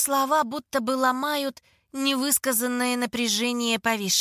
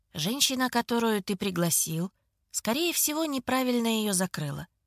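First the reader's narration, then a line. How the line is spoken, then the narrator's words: Quiet even voice. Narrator (Russian): говорит он брату тихим и ровным голосом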